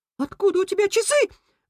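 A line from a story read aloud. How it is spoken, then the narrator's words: Rat's squeal. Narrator (Russian): взвизгнул крыс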